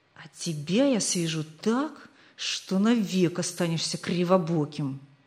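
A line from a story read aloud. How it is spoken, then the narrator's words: Hissed. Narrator (Russian): прошипел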